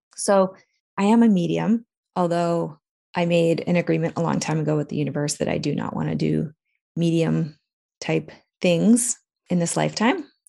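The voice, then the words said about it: Raspy voice after crying. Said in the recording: “My voice is raspy. I have been crying.”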